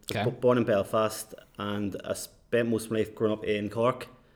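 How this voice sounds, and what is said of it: Belfast accent. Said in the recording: “I still have a Belfast accent”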